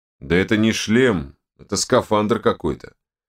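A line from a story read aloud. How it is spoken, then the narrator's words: Muffled booming from helmet. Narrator (Russian): прогудел Данила из-под забрала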